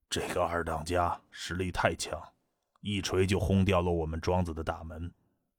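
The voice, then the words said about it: Lowered, whispered voice. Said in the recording (Chinese): “压低声音小声道”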